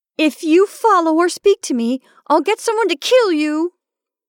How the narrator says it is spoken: shouted

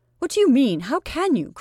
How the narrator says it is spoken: cried the other in horror

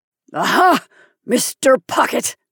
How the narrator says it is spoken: he cried out, as though to an auditor hidden somewhere above him beneath the surface of the slope

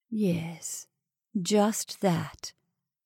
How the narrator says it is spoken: did Miss Fulton murmur

